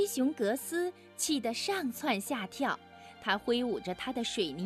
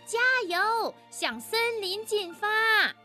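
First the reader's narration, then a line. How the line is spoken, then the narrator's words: Loud shout. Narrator (Chinese): 小熊妹妹还大声地叫着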